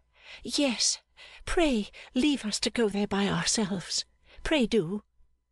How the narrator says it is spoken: begged Little Dorrit

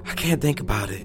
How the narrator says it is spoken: said softly, her voice muffled from behind her hands

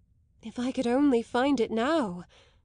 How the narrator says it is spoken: Isabel nervously cried

